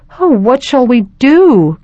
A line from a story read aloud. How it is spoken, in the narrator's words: cried Margaret